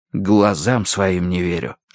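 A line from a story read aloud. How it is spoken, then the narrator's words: Whispered. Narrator (Russian): шепнул я Верити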